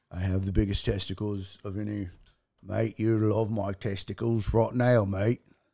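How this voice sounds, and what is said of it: Imitated voice with Australian accent. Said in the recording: “Wouldn't it be great if my Trump turned Australian?”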